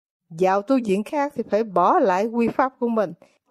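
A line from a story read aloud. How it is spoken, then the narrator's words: Plain. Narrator (Vietnamese): ông ta nói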